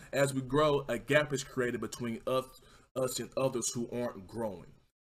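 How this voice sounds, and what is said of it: Speaker's own accent. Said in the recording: “I know my accent kind of fucked y'all up right there”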